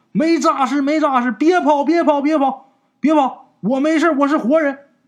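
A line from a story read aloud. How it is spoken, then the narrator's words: Loud frantic shouting. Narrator (Chinese): 张木匠大喊呐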